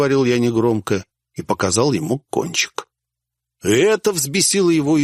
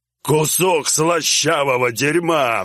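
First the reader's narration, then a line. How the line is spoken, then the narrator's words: Roaring brute. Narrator (Russian): взревел громила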